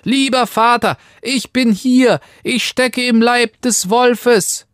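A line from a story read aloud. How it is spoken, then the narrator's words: Called out. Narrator (German): rief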